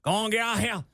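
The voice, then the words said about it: Old man voice. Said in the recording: “I do a voice every now and then... I go in that old man voice... I'm like an old man shooing kids off my front porch.”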